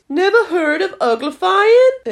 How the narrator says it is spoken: It exclaimed

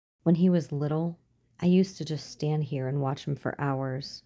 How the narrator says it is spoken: whispered into the stillness

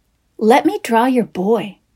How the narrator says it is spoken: she said

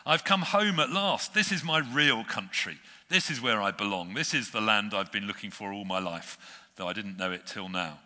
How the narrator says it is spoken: neighed and then cried

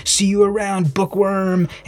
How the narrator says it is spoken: he's bellowing

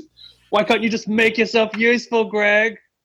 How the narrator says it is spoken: as he's reeling himself in, shouts

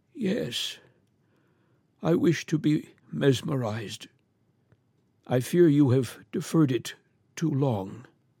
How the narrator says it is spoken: He replied feebly, yet quite audibly

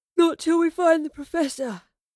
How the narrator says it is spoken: Astrid yawned

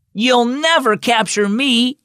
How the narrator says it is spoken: Ava yelled to her friend Jack

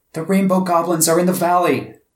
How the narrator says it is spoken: the moon shouted out in alarm

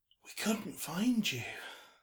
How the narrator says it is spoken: she said with a soft sigh

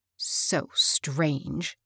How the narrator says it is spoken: muttered Hilda

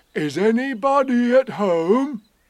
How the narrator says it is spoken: put his head into the hole and called out

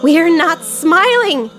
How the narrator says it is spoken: shouted

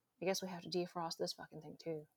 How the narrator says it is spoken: she said, sighing

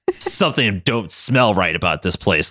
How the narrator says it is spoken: Logan grunted

